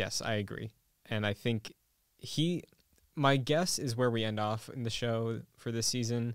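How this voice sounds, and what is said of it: Usual voice. Nothing is said of it.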